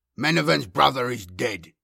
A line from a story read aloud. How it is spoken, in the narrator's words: Byzanthus growled from behind Yakov